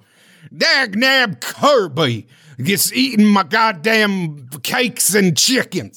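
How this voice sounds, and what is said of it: Cartoon king voice, weird southern accent. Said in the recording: “King DDD voice. King DDD has got a weird like southern accent that is inexplicable.”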